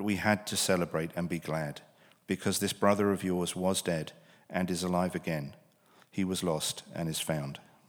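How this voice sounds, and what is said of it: British accent. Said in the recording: “when you hear things read in a British accent”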